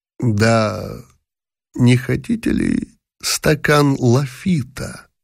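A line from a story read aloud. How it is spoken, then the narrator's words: Slow, quiet, hissing, strangled. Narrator (Russian): Медленно, тихим, шипящим, сдавленным голосом произнес фон дер Палин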